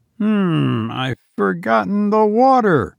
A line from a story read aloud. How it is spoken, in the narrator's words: exclaimed